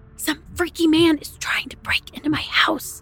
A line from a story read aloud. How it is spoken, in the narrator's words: whispered with alarm